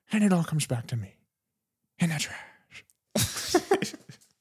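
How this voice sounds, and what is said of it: Grinch character voice. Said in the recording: “this is ... Grinch impression ... it's pretty good”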